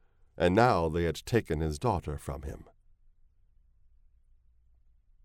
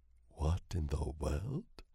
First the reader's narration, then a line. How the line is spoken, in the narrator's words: He breathed